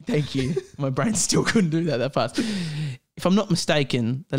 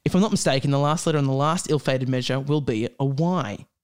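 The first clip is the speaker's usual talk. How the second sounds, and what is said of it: Put-on Australian accent, done badly. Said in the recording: “Oh, that's bad. The Australian accent.”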